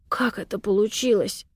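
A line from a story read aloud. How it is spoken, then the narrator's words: Quiet question. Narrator (Russian): так же тихо спрашивает Дима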